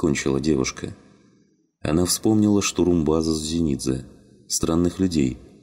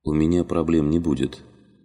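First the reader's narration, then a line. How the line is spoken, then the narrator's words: Calm reply. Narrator (Russian): спокойно ответил Корнелиус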